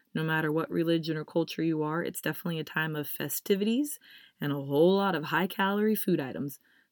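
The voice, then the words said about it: Congested, stuffy-sounding voice. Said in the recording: “my voice is a little bit different... wreaking havoc on my sinuses”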